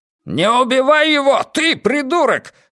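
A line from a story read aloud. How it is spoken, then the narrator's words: Roaring. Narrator (Russian): взревел Хаскель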